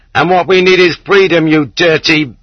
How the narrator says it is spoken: At pit number 7, somebody shouted from the back

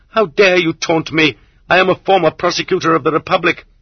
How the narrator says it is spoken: the Zek shouted hysterically

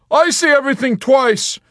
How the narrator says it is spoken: Yossarian shouted back at him just as loudly

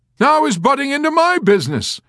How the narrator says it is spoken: Colonel Shyskoff cried

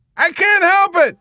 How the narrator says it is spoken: Kid Samson yelled back at him

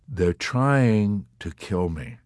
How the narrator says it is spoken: Yossarian told him calmly

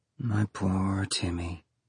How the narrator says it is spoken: she murmured

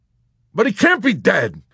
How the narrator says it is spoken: Yossarian cried, ready to argue insistently

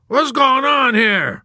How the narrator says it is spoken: A nude, ridiculous man bellowed

